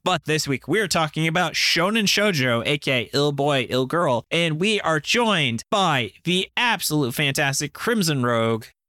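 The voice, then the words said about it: Announcer-style presenting voice. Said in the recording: “I'm using my announcer voice”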